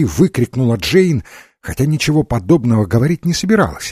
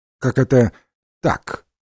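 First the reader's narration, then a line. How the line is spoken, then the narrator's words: Cold question. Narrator (Russian): холодно спросила Джейн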